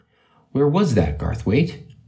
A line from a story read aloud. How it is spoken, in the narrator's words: exclaimed